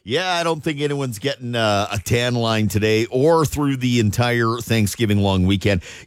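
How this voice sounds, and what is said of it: Rough voice. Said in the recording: “My voice is a little bit, little rough.”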